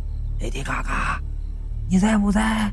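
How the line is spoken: Soft call. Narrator (Chinese): 轻声的叫道

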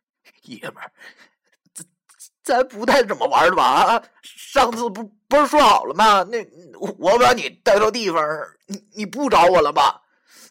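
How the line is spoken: Tearful voice. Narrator (Chinese): 他带着哭腔对我说

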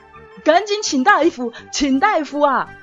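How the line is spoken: Distraught shout. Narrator (Chinese): 唐燕之崩溃了，大喊

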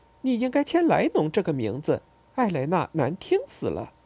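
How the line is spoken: Joking. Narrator (Chinese): 艾丽莎开玩笑说

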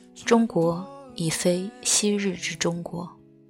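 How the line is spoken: Sighing in admiration. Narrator (Chinese): 日本在报道燕海文的事迹的时候，更感叹

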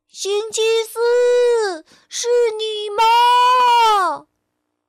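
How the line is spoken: Called out. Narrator (Chinese): 波波喊道

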